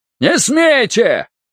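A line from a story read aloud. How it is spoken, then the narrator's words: Shouting again. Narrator (Russian): снова закричал Виктор Максимович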